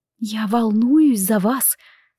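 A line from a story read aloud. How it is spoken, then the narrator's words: Devastated whisper. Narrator (Russian): совершенно убитым голосом прошептала она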